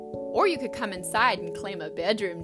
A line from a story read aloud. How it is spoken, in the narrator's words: Dad said with a laugh